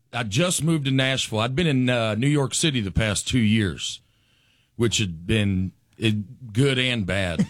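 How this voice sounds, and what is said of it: Southern Alabama accent. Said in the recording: “My accent catches some strays in New York City ... that's from my accent? ... I grew up about 12 miles outside of Huntsville, a great little place called Harvest, Alabama”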